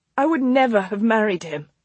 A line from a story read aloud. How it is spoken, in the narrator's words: Clara said fiercely